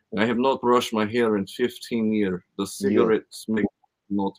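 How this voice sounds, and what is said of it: Put-on Eastern European accent. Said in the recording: “like the Eastern European accent, that, like Bulgarian”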